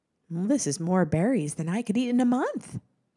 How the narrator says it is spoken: the woman exclaimed

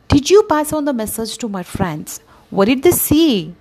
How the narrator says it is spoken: asked the parrot excitedly

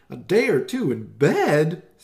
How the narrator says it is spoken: Susie yelped

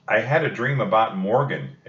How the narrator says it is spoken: exclaimed Annie

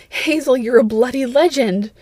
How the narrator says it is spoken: Red exclaimed

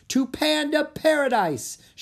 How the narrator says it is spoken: she shouted

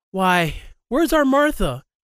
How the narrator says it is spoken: cried Bob Cratchit

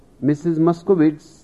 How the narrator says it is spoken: the spokesman said

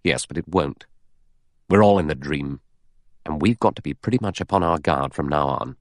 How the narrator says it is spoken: Philip Lombard said gravely

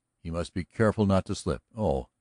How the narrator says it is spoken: he laughed carelessly

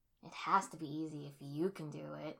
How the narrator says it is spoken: Sasuke scoffed

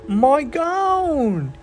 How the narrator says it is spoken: he yelled

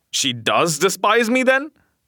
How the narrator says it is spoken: He exclaimed

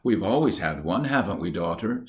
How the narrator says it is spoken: she said

